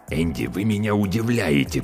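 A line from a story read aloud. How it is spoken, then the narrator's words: Hissing. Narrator (Russian): прошипел он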